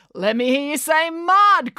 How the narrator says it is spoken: cried Brad

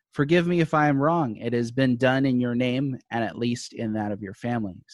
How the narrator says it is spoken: said Scrooge

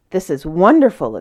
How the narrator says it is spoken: exclaimed the knight

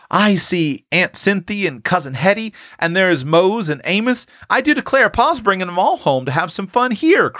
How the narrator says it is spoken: cried Prue as she recognized one familiar face after another

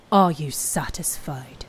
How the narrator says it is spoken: Elga growled

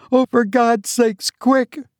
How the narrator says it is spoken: cried, pale with fear

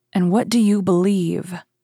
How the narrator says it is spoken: His voice was stifled by sobs

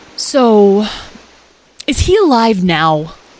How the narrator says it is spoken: Lyle asked anxiously

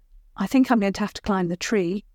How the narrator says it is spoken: Princess Isobel said

